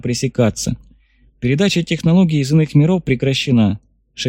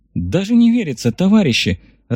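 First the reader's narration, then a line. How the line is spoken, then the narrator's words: Joyful sigh. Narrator (Russian): радостно вздохнула та, что называлась именем богини Победы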